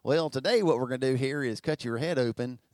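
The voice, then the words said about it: Put-on redneck accent. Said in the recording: “you don't want to hear your surgeon talk with a redneck's accent”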